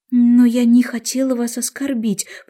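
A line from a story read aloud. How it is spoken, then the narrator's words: Pleading. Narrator (Russian): взмолилась Алиса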